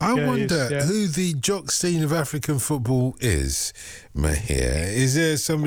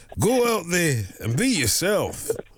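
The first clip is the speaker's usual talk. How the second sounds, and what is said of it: Put-on Scottish accent. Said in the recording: “with a Scottish accent ... It's a good accent as well”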